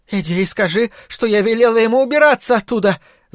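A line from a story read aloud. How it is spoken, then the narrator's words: Shouting. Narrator (Russian): закричала она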